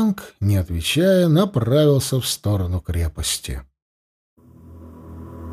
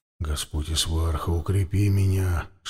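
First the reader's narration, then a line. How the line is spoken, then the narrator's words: Whispering. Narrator (Russian): шептал он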